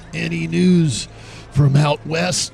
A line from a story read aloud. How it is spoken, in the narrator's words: Jerry wheezed